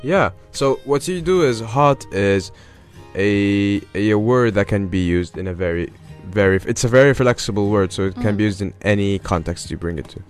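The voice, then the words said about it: Rough, older-sounding sick voice. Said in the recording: “my voice sounds like a 60-year-old guy who has... my throat is hurting me”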